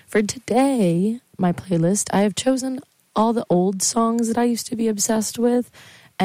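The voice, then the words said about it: Hoarse voice. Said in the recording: “my voice is still hoarse. I was screaming all weekend.”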